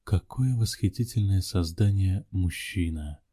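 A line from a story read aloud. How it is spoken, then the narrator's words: Whisper. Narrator (Russian): прошептала она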